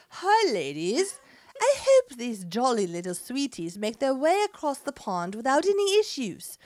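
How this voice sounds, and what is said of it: Put-on English accent. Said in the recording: “should I do it with an English accent? ... Say something in an English accent.”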